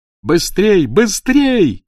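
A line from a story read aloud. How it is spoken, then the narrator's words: Shout. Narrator (Russian): крикнул он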